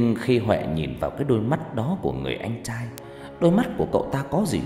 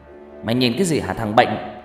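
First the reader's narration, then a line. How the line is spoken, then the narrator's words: Angry through gritted teeth. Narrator (Vietnamese): Người anh lúc này mới nghiến răng giận dữ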